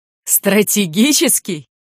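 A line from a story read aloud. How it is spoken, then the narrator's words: Laughing loudly. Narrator (Russian): расхохотался капитан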